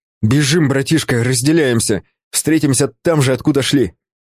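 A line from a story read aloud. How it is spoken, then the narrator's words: Shouted. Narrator (Russian): крикнув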